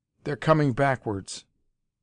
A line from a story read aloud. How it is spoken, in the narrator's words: Wells cried